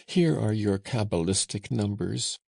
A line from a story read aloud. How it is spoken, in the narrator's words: cried Joseph